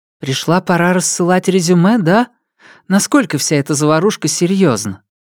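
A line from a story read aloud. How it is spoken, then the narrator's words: Sighing. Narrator (Russian): Он вздохнул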